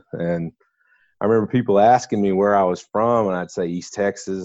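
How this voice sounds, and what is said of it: East Texas accent. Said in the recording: “people were always talking to me about my accent ... that is East Texas”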